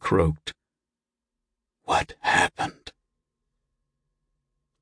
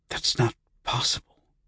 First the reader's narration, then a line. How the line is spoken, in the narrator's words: Joe whispered